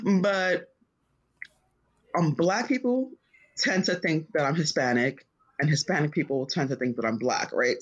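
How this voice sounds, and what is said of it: Thick regional accent. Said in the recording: “if you hear my accent, I'm pretty sure you could fucking figure it out ... It's so thick.”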